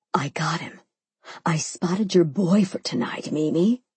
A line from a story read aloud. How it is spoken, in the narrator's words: Sophia squealed in a whisper